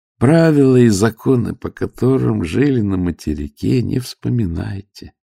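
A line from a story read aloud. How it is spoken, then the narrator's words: Soft, gentle. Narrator (Russian): мягко говорит Ноктев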